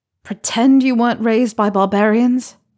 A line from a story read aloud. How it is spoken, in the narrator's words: Harry says with a sigh